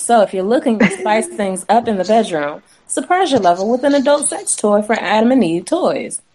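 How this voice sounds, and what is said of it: Sexy voice. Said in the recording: “I do have my sexy voice”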